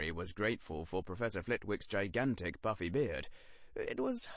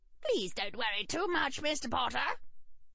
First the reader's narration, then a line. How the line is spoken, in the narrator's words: squeaked Professor Flitwick from somewhere around Harry's shoulder level